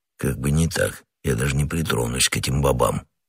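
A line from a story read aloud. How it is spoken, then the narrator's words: Quiet grumbling. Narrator (Russian): тихо проворчал Портос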